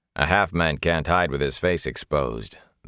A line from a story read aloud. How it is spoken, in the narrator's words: the warder said in a flat voice